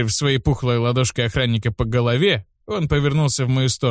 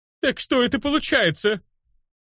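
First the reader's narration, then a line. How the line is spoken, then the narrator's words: Shrill shout, chubby man. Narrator (Russian): Закричал на охранника визгливый толстячок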